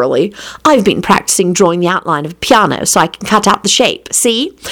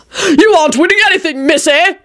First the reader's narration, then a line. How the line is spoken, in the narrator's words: her father hollered